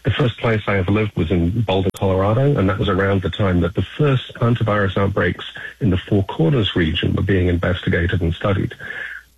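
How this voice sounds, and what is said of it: Non-American accent. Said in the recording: “you can tell from my voice, by the way, that I'm not originally from the United States.”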